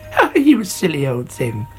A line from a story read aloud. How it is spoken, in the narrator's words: she said